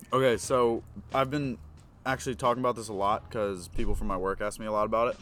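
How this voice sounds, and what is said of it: Mild Philadelphia accent. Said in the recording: “everyone says I've got kind of a Philly accent, but that's even when I'm not using my actual Philly accent”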